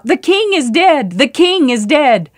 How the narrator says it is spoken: his soldiers began to shout

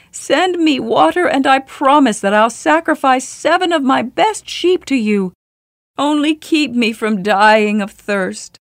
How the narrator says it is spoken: the shepherd cried out

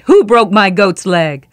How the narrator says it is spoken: In anger, he shouted

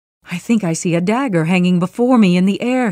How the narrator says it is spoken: he cried

